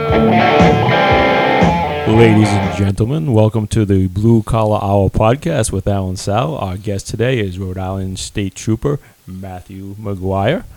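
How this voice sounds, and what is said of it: Smooth, modulated radio announcer voice. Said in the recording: “that was my radio voice ... It's very sexy. ... It's very modulated.”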